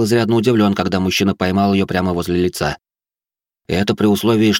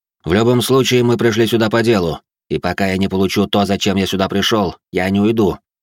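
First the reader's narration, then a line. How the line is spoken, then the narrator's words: Confident tone. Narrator (Russian): уверенным тоном произнес я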